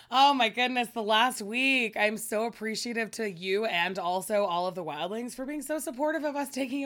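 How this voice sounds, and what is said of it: Raspy voice. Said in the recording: “sexy raspy voice”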